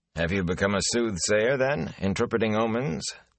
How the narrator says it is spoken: Tam asked dryly

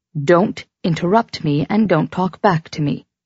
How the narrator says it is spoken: she said evenly

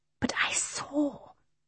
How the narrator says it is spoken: whispered Michael

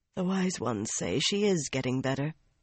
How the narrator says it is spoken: Nynaeve murmured sleepily in the dark

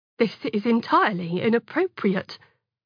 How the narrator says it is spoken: the warden had said in a crisp but shaking voice that gave away his young age

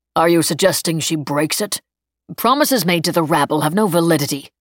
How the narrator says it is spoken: Dater snapped

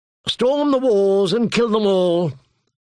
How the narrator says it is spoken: Sir Aimery said in a bored voice

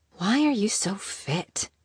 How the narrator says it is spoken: she mumbled

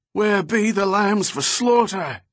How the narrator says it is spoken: he cried

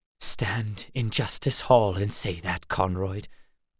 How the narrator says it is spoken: Gar whispered

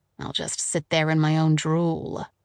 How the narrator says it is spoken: she added bitterly

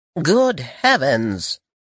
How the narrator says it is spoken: she exclaimed

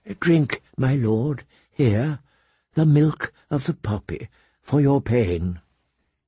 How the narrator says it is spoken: Grand Maester Pycelle whispering

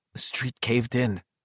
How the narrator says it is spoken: Bill whispered

